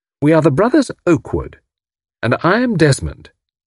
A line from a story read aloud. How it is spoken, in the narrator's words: he added firmly